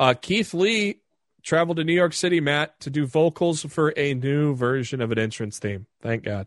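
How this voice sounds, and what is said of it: Usual voice. Nothing is said of it.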